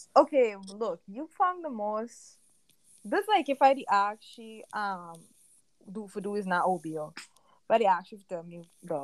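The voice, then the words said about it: Strong natural home accent and slang. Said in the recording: “accent is coming out on our podcast”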